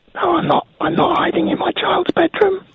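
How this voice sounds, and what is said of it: Whispering. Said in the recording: “Why are you whispering”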